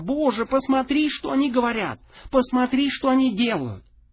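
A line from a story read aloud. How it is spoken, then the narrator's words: Sobbing while speaking. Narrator (Russian): рыдал, говоря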